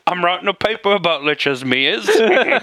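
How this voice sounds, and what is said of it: Put-on cockney Australian accent. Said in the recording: “She's like a fucking cockney Australian. ... No idea what I'm doing with this accent. ... Cockney Australian. That's perfect.”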